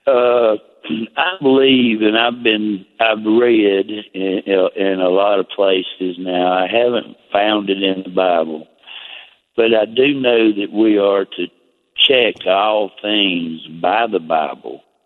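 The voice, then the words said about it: Deep Southern US accent. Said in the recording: “I'm from South Carolina, deep south, so you'll have to forgive my accent. ... I love your accent.”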